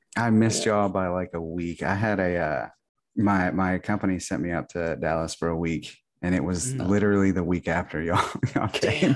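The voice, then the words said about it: Deeper, radio DJ style voice. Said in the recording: “Apparently, I make my voice deeper when I record. ... Putting on that sexy radio voice, man. ... I got my DJ voice”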